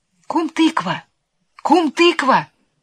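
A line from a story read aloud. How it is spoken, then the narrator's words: Calling in thin voice. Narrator (Russian): кто-то зовет тоненьким голоском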